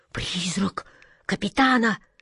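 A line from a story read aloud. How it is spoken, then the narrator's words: Terrified moan. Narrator (Russian): в ужасе простонала атаман Джина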